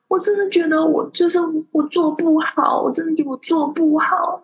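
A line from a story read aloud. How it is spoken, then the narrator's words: Tearful crying. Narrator (Chinese): 他就跑去前面哭，哭给老总看，然后就在那边说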